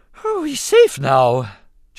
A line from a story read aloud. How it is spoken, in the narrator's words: Jar Jar observed with a grateful sigh